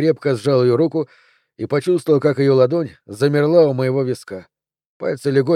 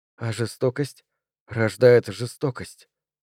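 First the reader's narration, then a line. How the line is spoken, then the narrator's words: Whisper. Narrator (Russian): прошептала Рэйчел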